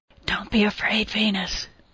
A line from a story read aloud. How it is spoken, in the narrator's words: Callie whispered